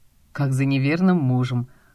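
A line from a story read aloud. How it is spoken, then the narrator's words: Snorting chuckle. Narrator (Russian): хмыкнул Костя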